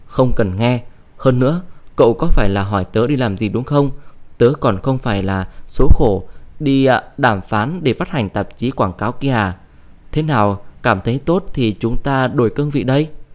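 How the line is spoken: Loud laugh, angry speech. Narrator (Vietnamese): Cô cười lớn lên, tức giận nói

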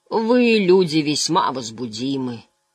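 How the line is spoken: Booming bass voice. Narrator (Russian): сказал Лоэл тем же грохочущим басом

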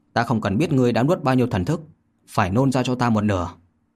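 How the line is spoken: Cold. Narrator (Vietnamese): Vô Lâm lạnh lùng mà nói

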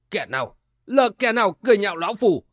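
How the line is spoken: Barked question. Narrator (Vietnamese): Lão quát hỏi

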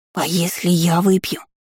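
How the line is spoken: Whispered. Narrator (Russian): прошептала зараза

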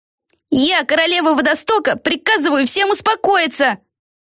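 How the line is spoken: Yelling. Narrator (Russian): заорала Пегги

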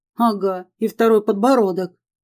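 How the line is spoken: Wry snort. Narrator (Russian): хмыкнула Ева

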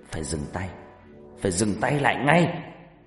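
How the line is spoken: Growling. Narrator (Vietnamese): Bà Regina gầm gừ nói

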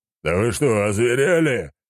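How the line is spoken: Growling. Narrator (Russian): зарычал он

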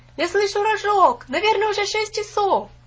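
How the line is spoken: Shouting. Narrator (Russian): на ходу закричали

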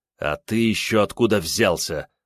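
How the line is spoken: Vicious snarl. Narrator (Russian): злобно оскалился я

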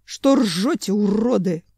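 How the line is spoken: Angry growl. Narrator (Russian): злобно зарычал Семен, изо всех сил стараясь не соскользнуть в бок

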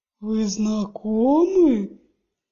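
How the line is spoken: Booming drawl. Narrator (Russian): Прогремел, растягивая слова

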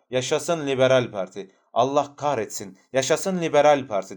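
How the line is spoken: Shouting. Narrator (Turkish): diye bağırıyordu

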